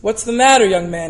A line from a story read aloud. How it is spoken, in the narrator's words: he asked